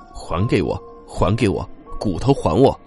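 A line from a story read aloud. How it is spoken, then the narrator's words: Impatient low murmur in ear. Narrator (Chinese): 似乎有些不耐烦了……凑到熊同学耳朵边低声的说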